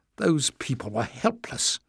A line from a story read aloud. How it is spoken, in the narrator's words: she said bitterly